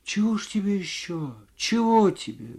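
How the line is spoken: Quiet, bewildered woman. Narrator (Russian): говорила женщина тихо и в недоумении

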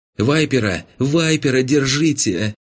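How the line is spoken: Girl's ringing shout. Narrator (Russian): Звонко закричала ... девчонка

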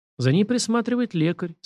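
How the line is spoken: Calm. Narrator (Russian): спокойно сказал

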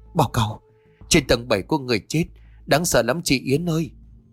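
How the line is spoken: Trembling voice. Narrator (Vietnamese): Vân run giọng bảo

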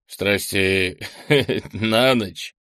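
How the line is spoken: Giggling question. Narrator (Russian): хихикнув, переспросил мужчина

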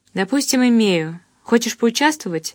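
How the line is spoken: Quick question. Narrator (Russian): быстро спросила я

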